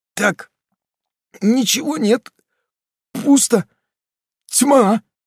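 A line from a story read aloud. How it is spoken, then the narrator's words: Steadier tone, stifled sobs. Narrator (Russian): говорил более ровным тоном, пытаясь всхлипывать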